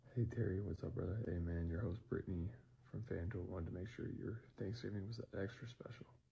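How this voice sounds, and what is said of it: Unenthusiastic, creepy, hushed tone. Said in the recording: “can I get some more enthusiasm? ... You sound like a creep. You sound like you're under your bed trying to do this. ... his weird-ass tone of voice”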